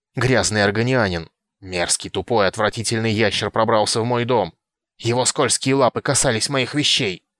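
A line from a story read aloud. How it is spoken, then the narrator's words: Hissing. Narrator (Russian): Каджитка снова зашипела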